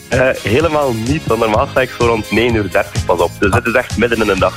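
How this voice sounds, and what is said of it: West Flemish accent. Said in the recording (Dutch): “je klinkt al bijzonder fruitig. Bespeur ik daar een West-Vlaams accent”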